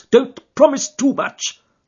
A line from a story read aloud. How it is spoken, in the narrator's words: snapped the detective